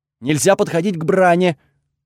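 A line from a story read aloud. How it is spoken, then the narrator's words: Quick loud, fearful. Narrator (Russian): тут же выдал Айкс, тоже громко, будто боялся, что если я его не расслышу, то прикончу на месте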